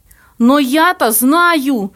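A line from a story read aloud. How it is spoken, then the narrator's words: Shouted. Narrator (Russian): выкрикнул бледный Плоткин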